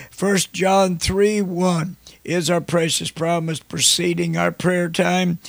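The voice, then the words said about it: Hoarse, croupy voice. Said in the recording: “I've got a little case of the croup ... I'm not sick, or my throat's not sore, I'm just hoarse.”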